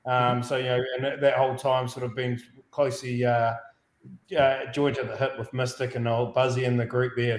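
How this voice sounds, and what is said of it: New Zealand accent. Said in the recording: “you can tell by the accent... Originally a Kiwi”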